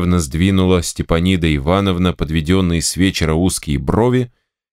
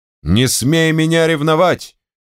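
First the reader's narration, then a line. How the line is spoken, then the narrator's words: Angry shout. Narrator (Russian): крикнул тогда он, топорща усы и багровея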